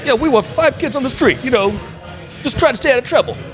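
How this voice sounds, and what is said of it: Put-on New Jersey accent. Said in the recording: “I had the accent wrong. I was doing the Jersey accent.”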